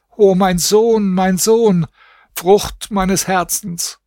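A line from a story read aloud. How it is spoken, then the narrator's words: Screaming wail. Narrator (German): schrie und jammerte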